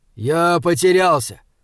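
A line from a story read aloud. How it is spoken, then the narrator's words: Too loud. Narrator (Russian): сказал Хорза слишком громко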